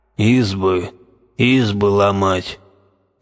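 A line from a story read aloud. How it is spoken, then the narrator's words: Indistinct, gloomy chorus. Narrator (Russian): Невнятно, но как-то мрачно произнесли оловянные солдатики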